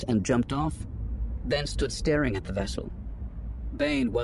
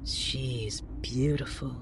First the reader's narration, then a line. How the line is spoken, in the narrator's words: Xana breathed